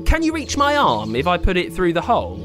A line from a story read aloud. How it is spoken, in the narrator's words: said Ummi